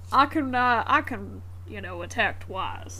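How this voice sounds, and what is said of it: A put-on funny voice. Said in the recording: “funny voice”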